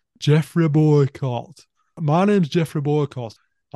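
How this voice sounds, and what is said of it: Put-on Yorkshire accent. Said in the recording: “I can actually do a relatively good Yorkshire accent. I apologize for people if they don't think it's that good.”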